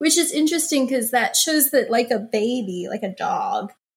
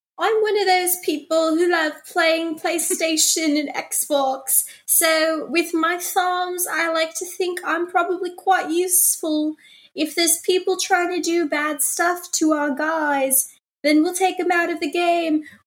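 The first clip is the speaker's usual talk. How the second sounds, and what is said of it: Put-on British accent, Prince Harry. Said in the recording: “let me do my British accent.”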